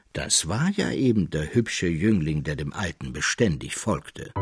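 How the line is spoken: Calm. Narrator (German): fuhr der Mägler ruhig fort

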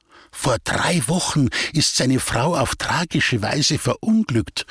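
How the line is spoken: Whispered. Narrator (German): flüsterte Frau Beinweber

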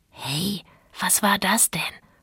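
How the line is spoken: Dog whispering. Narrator (German): flüsterte der Hund

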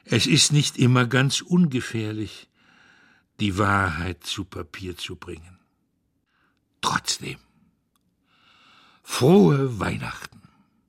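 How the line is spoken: Sighing grandfather. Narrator (German): seufzt der Großvater

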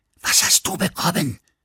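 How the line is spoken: Woman whispering. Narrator (German): flüsterte sie

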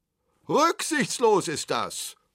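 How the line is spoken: Others roaring. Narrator (German): brüllten andere

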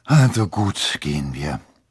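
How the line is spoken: Sighed. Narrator (German): seufzte er

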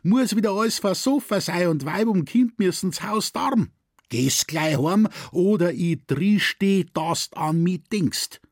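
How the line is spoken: Heated woman shouting. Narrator (German): schrie eine weibliche, erhitzte Stimme

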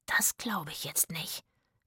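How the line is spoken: Whispering. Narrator (German): flüsterte Zora

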